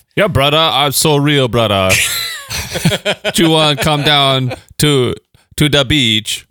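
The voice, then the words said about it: Put-on Jamaican accent. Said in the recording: “your accent is not even capturing it ... That's actually Jamaican. A really good.”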